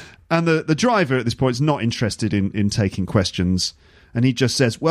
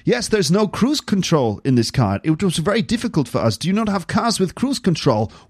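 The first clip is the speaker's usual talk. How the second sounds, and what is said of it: Put-on German accent, Walken-like. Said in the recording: “This is my German accent. This is my attempt at a German accent, which the thing is, whenever I do a German accent, it starts to slip into Christopher Walken, the movie star. ... if I keep doing it, it becomes Christopher Walken.”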